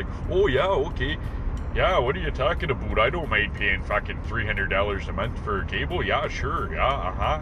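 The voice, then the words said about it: Stereotypical Canadian accent. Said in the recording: “that's like a stereotypical Canadian accent”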